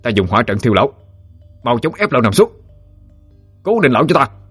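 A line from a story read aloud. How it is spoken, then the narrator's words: Loud shout. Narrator (Vietnamese): ba đệ tử Lâm gia quát lớn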